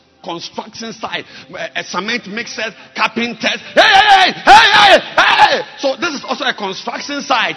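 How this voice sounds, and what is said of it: Shouting. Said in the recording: “We have to shout. ... don't be surprised that I'm shouting.”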